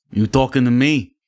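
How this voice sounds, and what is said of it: Robert De Niro impression. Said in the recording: “do an impression of Robert De Niro ... You started really good”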